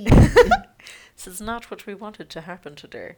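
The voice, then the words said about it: Weak put-on German accent. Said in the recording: “Was that your German accent? ... I can't do German. ... you did it for a second, and now you've lost it.”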